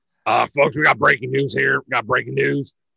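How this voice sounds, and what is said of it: Imitates another person's voice. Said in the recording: “I'm gonna do my Alex Jones, my best Alex Jones impersonation.”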